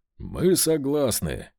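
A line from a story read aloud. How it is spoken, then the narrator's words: Brisk, cheerful declaration. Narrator (Russian): бодро заявил Левин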